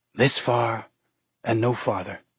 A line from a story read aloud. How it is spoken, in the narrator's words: she whispered